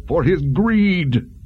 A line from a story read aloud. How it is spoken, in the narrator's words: the man shouted